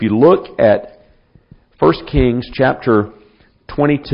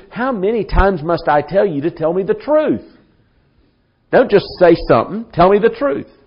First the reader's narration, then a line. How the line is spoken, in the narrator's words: he must have said it in that kind of a sarcastic, mocking way